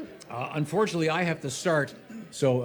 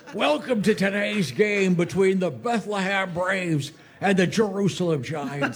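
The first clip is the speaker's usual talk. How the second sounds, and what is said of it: Imitates a baseball announcer's voice. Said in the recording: “doing the voices of Harry Carey”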